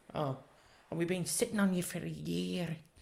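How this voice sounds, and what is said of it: Failed attempt at Northern Irish accent. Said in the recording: “cute little Northern Irish accent ... That wasn't Northern Irish.”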